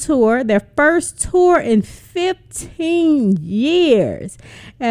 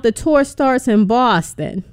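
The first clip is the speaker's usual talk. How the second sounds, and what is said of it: Put-on Boston accent. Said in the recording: “Check out my accent. ... I just kind of had to put that little voice on for you.”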